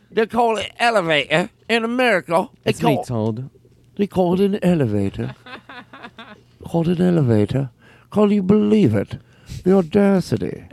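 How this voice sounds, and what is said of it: Fake British accent. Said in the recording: “This is a great British accent. ... This is top-notch British accent. ... It's sort of like a bad accent.”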